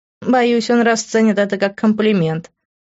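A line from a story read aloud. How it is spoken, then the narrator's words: Chuckling. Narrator (Russian): хохотнула она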